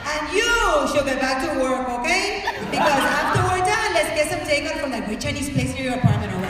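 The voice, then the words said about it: Put-on Miami Cuban accent. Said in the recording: “I'm gonna do a Miami Cuban accent”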